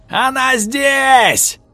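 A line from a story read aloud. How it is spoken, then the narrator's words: Sudden yell. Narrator (Russian): Моментально заорал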